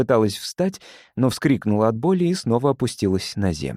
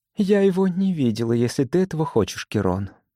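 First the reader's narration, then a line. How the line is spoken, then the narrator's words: Soft. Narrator (Russian): сказала мягко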